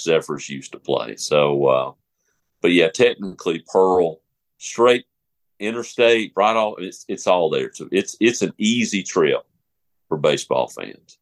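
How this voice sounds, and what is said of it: Southern gentleman's accent. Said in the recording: “a very classical Southern accent, a Southern gentleman's accent ... It's just very, very wonderful voice”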